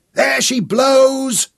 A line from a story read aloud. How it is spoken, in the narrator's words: Nicholas shouted